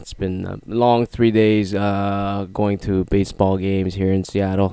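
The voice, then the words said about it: Hoarse, worn-out voice. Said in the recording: “My voice is absolutely shot. It's gone today.”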